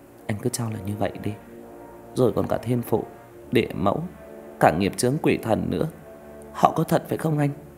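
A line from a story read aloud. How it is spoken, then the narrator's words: Smiling. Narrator (Vietnamese): Ánh mỉm cười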